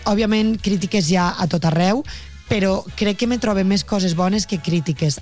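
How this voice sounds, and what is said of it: Valencian Catalan accent. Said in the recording (Catalan): “volem que continues mantenint el teu accent, la teua llengua, la teua parla ... la valenciana”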